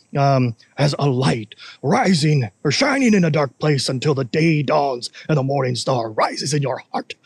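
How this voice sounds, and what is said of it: Poor Gandalf impression, wise old man. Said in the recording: “That was not a good Gandalf impression. It was just some wise old man saying that.”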